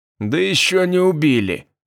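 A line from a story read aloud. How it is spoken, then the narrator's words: Hoarse rasp. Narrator (Russian): прохрипел Попов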